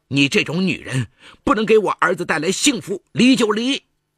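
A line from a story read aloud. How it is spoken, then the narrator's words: Furious. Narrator (Chinese): 李桂莲闻讯赶了过来，怒不可遏地说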